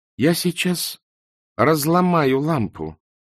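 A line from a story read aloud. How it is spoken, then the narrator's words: Calm threat. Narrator (Russian): спокойно пригрозила Канина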